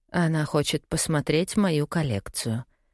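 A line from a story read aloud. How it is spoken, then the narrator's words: Whisper. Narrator (Russian): шепнула Пегги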